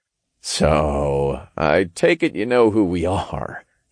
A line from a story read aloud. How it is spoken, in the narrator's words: chuckled